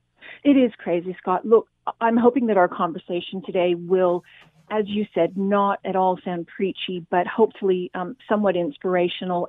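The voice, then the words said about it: Australian accent. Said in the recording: “despite my accent, I'm originally from Australia”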